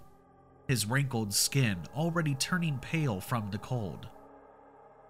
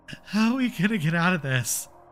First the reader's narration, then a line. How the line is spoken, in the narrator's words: She whimpered